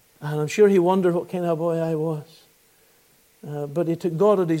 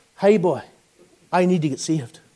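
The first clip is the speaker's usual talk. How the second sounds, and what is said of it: Broad Ballymena Northern Irish accent. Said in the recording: “my best Ballymena accent”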